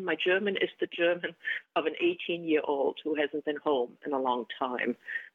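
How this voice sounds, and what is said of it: German-accented English. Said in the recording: “you still hear the accent”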